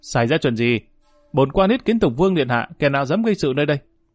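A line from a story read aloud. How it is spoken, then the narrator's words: Loud shout. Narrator (Vietnamese): Dương Lang không khỏi vận dụng cổ họng hét lên một tiếng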